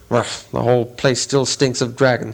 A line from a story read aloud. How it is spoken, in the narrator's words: he grumbled to himself